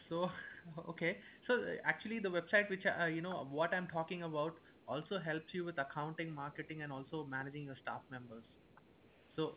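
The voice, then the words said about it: Indian accent. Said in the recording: “you Indian people, whoever you actually from with that accent”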